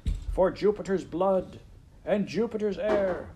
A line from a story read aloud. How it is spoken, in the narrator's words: Uncle Wilfred cried